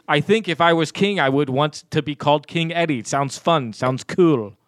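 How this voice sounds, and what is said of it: Scottish accent. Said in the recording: “where's your accent from? ... It's Scotland.”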